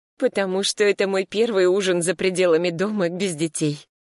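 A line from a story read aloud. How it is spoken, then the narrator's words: Laughing. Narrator (Russian): рассмеялась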